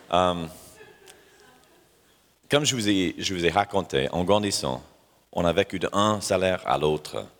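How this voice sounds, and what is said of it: French spoken with a foreign accent. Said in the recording (French): “j'ai un accent”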